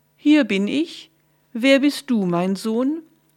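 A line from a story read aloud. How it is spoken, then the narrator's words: Deliberately deep call. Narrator (German): rief er mit möglichst tiefer Stimme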